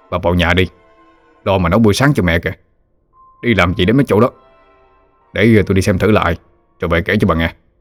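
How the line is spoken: Snapping harshly. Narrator (Vietnamese): Ông nạt bà

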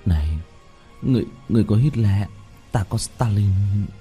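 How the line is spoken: Muttered. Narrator (Vietnamese): lẩm bẩm

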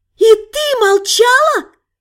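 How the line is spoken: Dragon girl shouting. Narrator (Russian): прокричала внезапно обретшая человеческую плоть дракоша

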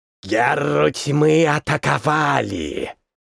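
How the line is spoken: Demonic hiss. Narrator (Russian): прошипел высокий демоноподобный человек по имени Малгар

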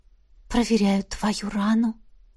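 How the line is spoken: Quiet whisper. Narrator (Russian): донесся тихий шепот

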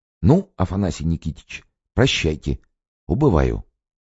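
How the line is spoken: Whisper. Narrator (Russian): шепотом сказал

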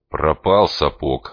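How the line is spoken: Grumbling mutter. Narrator (Russian): снова буркнул он

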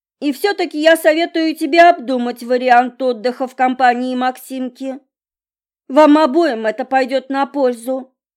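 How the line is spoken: Shouting through door. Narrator (Russian): кричала из-за двери тетушка Мила

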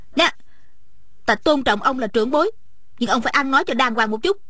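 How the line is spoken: Flushed angry speech. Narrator (Vietnamese): Ôn Thanh lập tức đỏ bừng mặt, giận dữ nói

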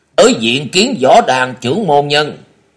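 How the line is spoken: Loud laughing speech. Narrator (Vietnamese): Ngân Đào Lạc Ma Ngô Xuân cười lớn tiếng rồi nói

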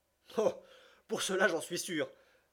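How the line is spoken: Laughing exclamation. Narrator (French): s'écria Passepartout riant de plus belle

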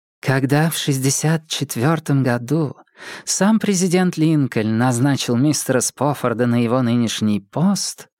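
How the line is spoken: Deep feminine chest voice. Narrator (Russian): сказала она неожиданно женственным грудным голосом

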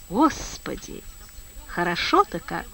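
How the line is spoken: Tender, slightly wavering drawl. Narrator (Russian): ласково затянула голоском, колеблющимся слегка

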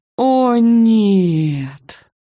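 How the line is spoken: Groan. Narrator (Russian): застонала Оля

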